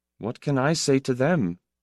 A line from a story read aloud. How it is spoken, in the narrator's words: asked in a diffident tone